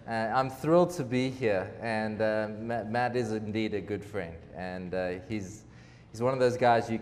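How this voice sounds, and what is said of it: South African accent. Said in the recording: “my accent tells you I'm from somewhere else. I'm a South African. And that does make understanding me difficult at times.”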